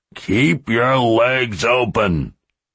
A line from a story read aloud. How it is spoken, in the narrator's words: Tyler growled